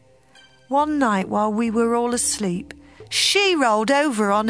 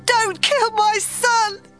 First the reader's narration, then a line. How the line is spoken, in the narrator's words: mother screamed